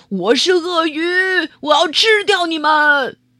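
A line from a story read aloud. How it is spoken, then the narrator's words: Loud shout. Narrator (Chinese): 或是大声喊叫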